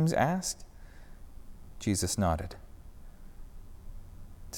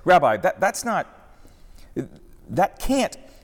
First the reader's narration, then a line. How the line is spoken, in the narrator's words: he sputtered for a moment